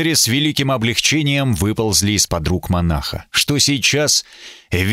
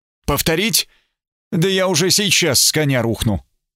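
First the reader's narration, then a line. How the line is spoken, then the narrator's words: Cheerful. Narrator (Russian): Сэр Смит сказал мне бодро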